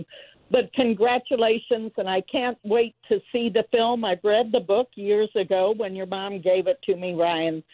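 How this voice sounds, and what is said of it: Emotional, choked-up voice. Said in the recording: “I'm sorry I'm getting emotional”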